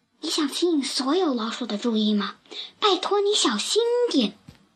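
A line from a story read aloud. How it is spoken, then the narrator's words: Quiet voice. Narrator (Chinese): 菲亚小声说道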